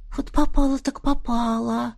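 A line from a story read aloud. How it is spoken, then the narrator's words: Whisper. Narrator (Russian): прошептала она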